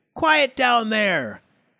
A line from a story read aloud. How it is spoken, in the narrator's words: heard a racket in the night and shouted